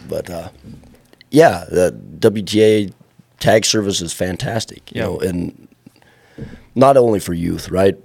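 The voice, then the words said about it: Hoarse, fading voice. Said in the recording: “if you can tell, I'm losing my voice, so I've been pretty quiet”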